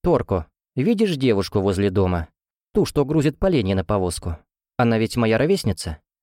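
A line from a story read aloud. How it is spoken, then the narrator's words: Plain. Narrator (Russian): спросила Эржебет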